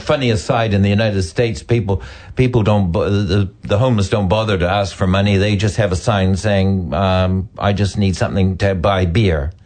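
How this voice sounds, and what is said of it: Mixed Canadian and New Zealand accent. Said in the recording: “I'm Canadian. ... I've got a funny accent now because I've been here like 55 years almost. ... are you a Kiwi? ... I have got a mixture of accents now.”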